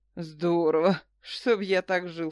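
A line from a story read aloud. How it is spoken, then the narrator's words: Snorting. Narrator (Russian): фыркнул снайпер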